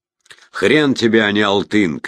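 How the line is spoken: Shout. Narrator (Russian): крикнул Марат

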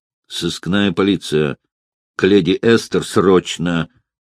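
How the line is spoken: Through teeth, vindictive. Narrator (Russian): процедил он, мстительно предвкушая

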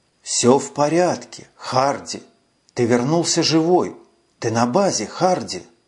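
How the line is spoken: Slow, gentle, soothing. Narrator (Russian): Он говорил медленно и ласково, словно утешая испуганного ребенка

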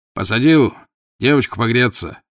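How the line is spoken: Shouting. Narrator (Russian): крикнул он

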